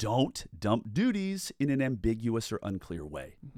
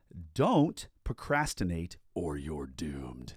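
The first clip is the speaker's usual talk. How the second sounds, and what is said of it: Deep voice. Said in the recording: “That's a good deep voice”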